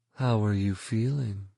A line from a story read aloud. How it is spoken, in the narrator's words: purred